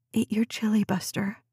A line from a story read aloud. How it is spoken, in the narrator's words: whispered